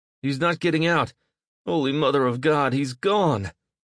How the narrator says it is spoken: Gus exclaimed with an infuriated sob

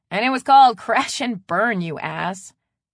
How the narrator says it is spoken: Blaze said with a laugh

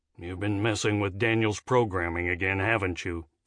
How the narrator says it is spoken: Finn grumbled

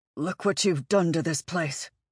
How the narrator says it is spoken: he growled

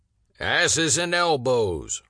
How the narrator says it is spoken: Rosie roars as he lifts the first piece

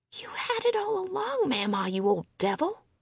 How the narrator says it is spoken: Delpha whispered

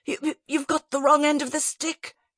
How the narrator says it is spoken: spluttered

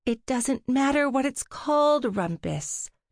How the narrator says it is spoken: Trixie sighed

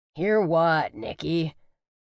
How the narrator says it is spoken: Jerome replied gruffly

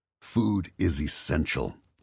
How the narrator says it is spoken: he growled

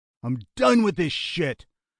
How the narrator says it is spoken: Lionel shouted

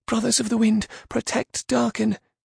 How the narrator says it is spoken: Mayfon shouted

